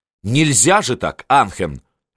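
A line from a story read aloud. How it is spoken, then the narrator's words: Sharp. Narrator (Russian): резко произнес он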